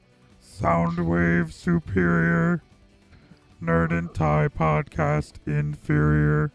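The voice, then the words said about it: Throat-sung robotic character voice. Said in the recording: “I can just do that with my voice ... The Executron voice was always my Soundwave impersonation ... You just do a throat singing while using your regular vocal cords at the same time.”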